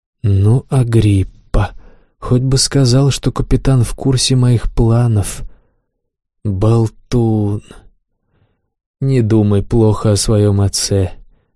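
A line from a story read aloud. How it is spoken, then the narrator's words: Gentle. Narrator (Russian): мягко сказал Равах Ага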